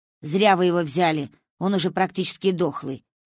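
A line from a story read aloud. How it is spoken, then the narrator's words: Grumbling. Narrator (Russian): проворчала она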